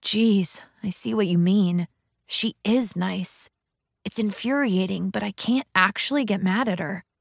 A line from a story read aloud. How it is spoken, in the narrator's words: Lee whispered in my ear